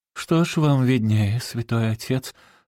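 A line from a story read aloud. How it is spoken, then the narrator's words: Lazy remark. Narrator (Russian): лениво заметила миссис Аттервайт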